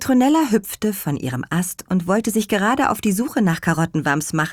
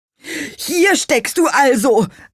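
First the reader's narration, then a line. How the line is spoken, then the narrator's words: Relieved call. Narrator (German): rief er erleichtert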